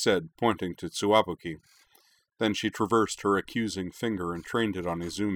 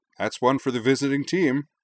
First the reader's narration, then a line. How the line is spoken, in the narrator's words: Wakaba Shinohara declared cheerfully